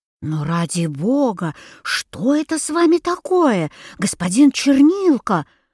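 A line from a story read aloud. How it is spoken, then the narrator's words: Exclamation. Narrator (Russian): воскликнула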